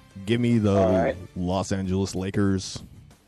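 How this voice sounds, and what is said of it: Arena PA announcer voice. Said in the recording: “I'm even going to do my pick in the Los Angeles Lakers PA announcer voice.”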